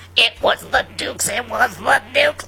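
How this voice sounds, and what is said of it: Imitates another person's voice. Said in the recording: “best Donna Michi impression”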